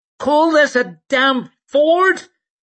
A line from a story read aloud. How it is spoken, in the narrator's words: she shouted at Sweet over the noise of the water